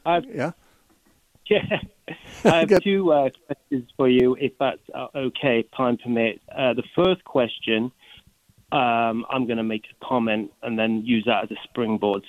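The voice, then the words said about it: Texas accent. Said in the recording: “That's great Texas accent.”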